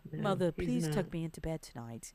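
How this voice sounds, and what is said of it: Put-on British accent. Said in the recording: “I can't do it without acting like I'm British. ... accent.”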